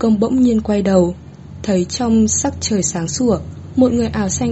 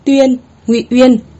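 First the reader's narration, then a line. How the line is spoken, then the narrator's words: Raised voice. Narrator (Vietnamese): Nữ đế cao giọng nói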